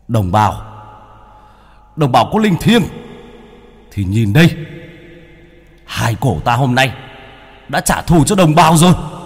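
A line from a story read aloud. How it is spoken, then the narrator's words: Roaring cry. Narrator (Vietnamese): Bác Cổ ngửa mặt lên trời mà gầm lên một tiếng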